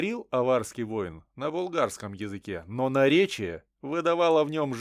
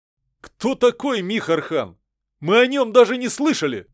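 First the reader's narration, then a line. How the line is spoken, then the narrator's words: Shouting. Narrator (Russian): крикнул Дурыг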